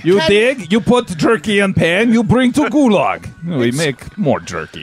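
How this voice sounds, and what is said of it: Odd put-on foreign accent. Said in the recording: “What is wrong with your accent?”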